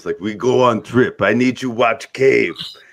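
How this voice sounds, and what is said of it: Put-on German accent. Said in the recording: “German? ... Yes, they're all German. ... Every accent is German today.”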